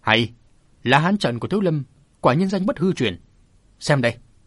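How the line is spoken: Loud distant shout. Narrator (Vietnamese): ở bên ngoài chùa có tiếng quát to vọng vào

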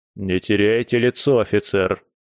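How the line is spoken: Stern rebuke. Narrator (Russian): строго одернул майор

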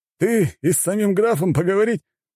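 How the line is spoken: Group laughing. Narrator (Russian): рассмеялись те

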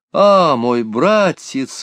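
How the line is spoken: Exclaiming. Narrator (Russian): воскликнула она

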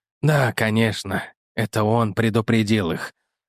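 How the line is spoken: Muffled, dull. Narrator (Russian): сказал он глухо

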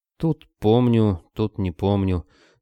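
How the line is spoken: Gloomy reply. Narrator (Russian): мрачно отозвался Кобылин

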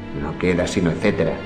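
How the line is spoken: Muttered under breath. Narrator (Spanish): murmuraba entre dientes

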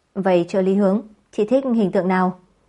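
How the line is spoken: Sudden rueful laugh. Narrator (Vietnamese): Hướng Dụ nghĩ đến những tiếc nuối trong chuyện tình cảm của chính mình, cô bỗng nhiên bật cười

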